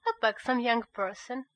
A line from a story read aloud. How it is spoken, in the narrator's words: replied